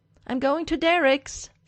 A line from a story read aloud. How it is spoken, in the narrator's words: Stiles yells at the house